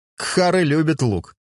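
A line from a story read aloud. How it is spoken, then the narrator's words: Laughing. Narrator (Russian): засмеялся Дюлька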